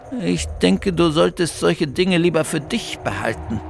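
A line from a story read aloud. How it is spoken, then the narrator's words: Murmuring. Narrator (German): murmelte Bertha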